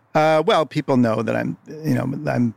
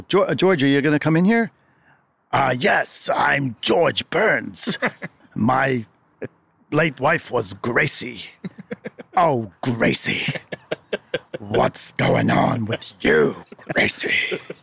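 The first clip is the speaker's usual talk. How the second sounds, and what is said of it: Imitates another person's voice. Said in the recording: “famous for doing George Burns ... your impression of him ... David Wayne's famous George Burns impression”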